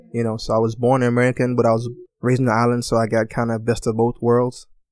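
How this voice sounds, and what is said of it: Slight U.S. Virgin Islands accent. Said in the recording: “For those of you that have a kind of keen ears, have a bit of an accent, I'm from St. Thomas, U.S. Virgin Islands”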